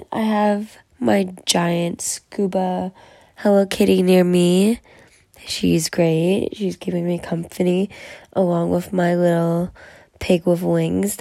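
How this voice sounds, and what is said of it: Stuffy, congested voice. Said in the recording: “You can probably tell by my voice. that I'm a little stuffy, a little stuffed up”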